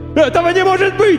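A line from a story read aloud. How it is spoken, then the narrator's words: Wailing. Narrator (Russian): вопил бомж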